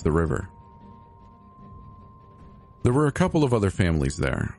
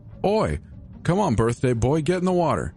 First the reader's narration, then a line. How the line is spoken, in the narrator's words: Charles yelled